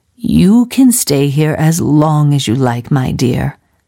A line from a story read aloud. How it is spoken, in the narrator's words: said Mrs